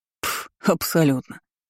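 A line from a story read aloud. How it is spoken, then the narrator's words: Snorted. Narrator (Russian): фыркнул он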